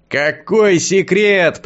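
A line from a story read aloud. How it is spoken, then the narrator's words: Distant shout, mage. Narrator (Russian): прокричал издали маг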